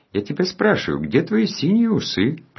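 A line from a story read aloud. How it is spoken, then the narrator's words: Singsong. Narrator (Russian): продолжал нараспев Жоржик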